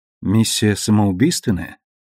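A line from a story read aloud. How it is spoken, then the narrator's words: Very quiet, calm question. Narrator (Russian): Клариса очень тихо и спокойно спросила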